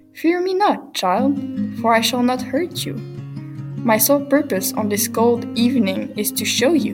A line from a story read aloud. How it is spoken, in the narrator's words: softly replied the unidentified female